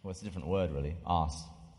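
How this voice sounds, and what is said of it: British accent. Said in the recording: “say it with your British accent”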